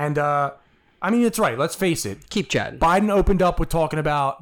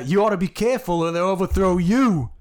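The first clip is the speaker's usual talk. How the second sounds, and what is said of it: Donald Trump impression. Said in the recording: “a pretty good Trump impersonation”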